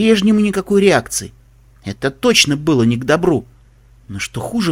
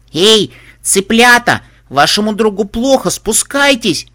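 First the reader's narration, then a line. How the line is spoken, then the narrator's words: Screaming at full voice. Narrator (Russian): Завопила Пупи во все горло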